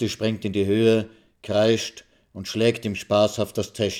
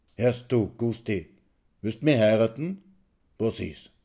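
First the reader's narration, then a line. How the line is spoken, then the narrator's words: Murmuring in her ear. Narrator (German): raunt er ihr ins Ohr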